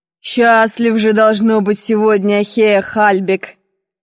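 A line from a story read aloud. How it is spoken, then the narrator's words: Half mocking, half pensive. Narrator (Russian): произнес он не то насмешливо, не то задумчиво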